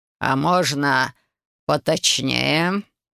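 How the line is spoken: Icy commanding voice. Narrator (Russian): ледяным голосом велел герцог

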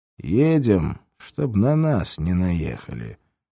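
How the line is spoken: Displeased grumble. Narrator (Russian): недовольно буркнул Клоп

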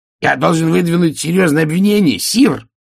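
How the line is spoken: Shouted. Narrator (Russian): выкрикнул он

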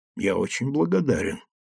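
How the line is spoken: Quiet. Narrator (Russian): тихо сказал Гирин

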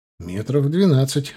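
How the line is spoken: Laughing. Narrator (Russian): рассмеялся я

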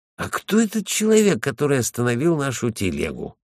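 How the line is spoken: Thoughtful. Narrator (Russian): Он задумчиво сказал

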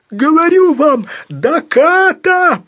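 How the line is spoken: Desperate howl. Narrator (Russian): прямо-таки взвыл рулевой

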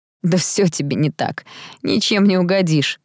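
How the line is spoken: Laughing. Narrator (Russian): рассмеялся Том

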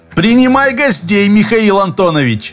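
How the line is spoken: Cheerful shout from corridor. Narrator (Russian): весело крикнул Богдан из коридора

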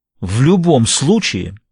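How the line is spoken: Barking. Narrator (Russian): рявкнул Виттингтон

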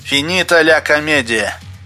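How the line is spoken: Mechanical mutter. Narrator (Russian): машинально пробормотал Спицын

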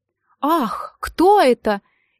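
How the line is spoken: Exclaimed. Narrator (Russian): он воскликнул

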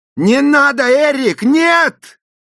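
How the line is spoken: Screamed. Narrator (Russian): завопил я

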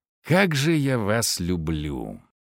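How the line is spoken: Growled through teeth. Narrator (Russian): сквозь зубы прорычал я

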